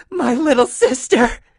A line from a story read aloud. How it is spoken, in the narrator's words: She sobbed